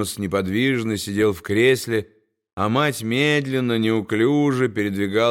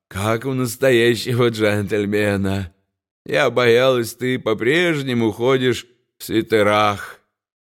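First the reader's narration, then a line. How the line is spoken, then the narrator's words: Mother laughing cheerfully. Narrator (Russian): Мать весело рассмеялась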